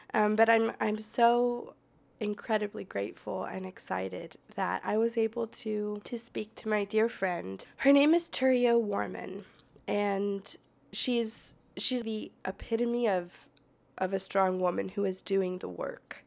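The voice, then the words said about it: Raspy, congested voice. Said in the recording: “I have a cold, so please excuse my raspy voice”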